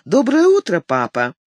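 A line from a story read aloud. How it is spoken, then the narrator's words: Joyful smiling reply. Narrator (Russian): ответила она радостно и улыбаясь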